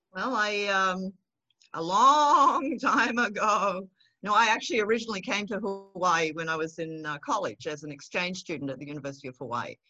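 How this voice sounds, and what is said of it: Slight Australian accent. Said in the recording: “We've still got a bit of that Australian twang in there”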